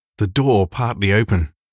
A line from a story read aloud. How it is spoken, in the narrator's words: gasped John